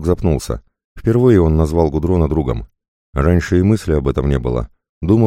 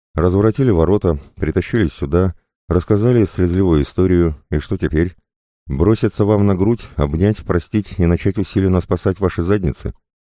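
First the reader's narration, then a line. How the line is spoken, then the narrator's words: Indifferent, through clenched teeth. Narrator (Russian): Волк равнодушно смерил взглядом искалеченное тело профессора и бросил сквозь зубы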